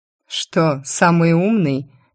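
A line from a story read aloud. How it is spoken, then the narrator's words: Mocking curious question. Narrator (Russian): Насмешливо полюбопытствовал Закери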